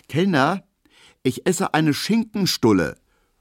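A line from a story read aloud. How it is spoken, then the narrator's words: Quick call. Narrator (German): ruft Emil Kubinke schnell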